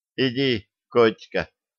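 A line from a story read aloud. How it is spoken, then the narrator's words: Quiet. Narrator (Russian): тихо сказал Тяпа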